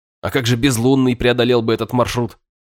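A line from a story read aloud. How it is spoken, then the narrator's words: Snorting question. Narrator (Russian): Хмыкнув, я спросил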